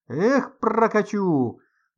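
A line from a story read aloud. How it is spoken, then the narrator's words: Nonstop hollering man. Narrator (Russian): Не переставая, вопил дядька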